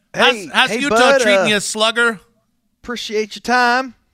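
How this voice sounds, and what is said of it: Put-on Southern accent. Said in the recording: “a little southern accent there”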